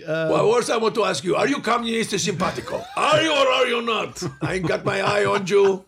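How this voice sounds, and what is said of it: Mock Cuban-accented impression of a leader. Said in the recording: “I should make fun of the accent ... I did a lot of Fidel Castro.”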